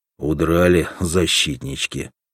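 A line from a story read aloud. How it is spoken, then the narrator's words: Angry spat remark. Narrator (Russian): сплюнул зло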